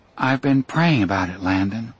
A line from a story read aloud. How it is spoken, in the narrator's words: she said simply, and sighed for the second time